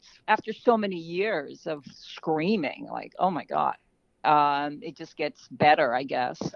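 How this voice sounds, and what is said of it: Usual voice. Nothing is said of it.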